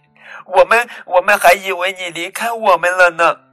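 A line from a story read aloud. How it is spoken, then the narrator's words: Excited shouting. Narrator (Chinese): 琥珀和小凯喊着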